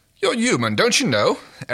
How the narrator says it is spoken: Aaron snapped

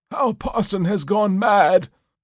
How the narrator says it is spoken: cried Goodman Gray

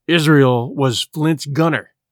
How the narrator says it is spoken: said Gray, hoarsely

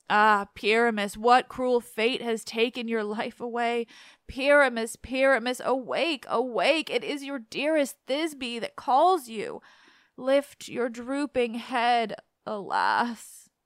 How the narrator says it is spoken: wailed

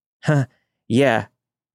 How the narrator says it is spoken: I said, my voice shaking

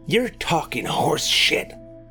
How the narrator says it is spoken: hissed Roy

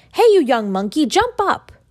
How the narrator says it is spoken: I at once cried out

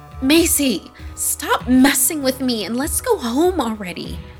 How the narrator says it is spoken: Anya begged, still unwilling to open her eyes

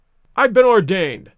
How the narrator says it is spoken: cried the old rascal

